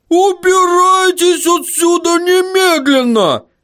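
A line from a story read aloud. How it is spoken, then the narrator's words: Female dwarf yelling. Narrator (Russian): заорала гномиха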